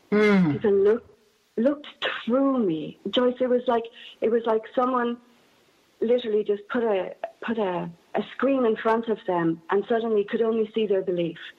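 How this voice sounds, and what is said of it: Non-Northern Irish accent. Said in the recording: “my accent, as you can tell, is very different to the Northern Ireland accent.”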